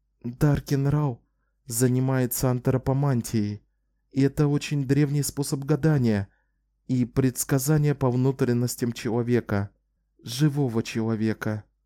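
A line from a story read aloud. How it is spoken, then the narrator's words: Quiet. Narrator (Russian): тихо сказала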